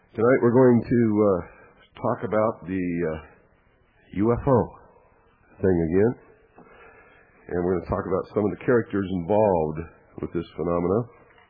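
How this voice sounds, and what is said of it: Congested, strained, failing voice. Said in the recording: “I get a bad respiratory congestion, and my voice is on the edge of failure ... if you hear me hacking and coughing”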